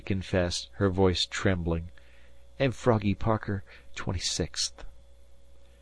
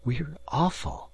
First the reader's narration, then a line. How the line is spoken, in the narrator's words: rejoined Myra gently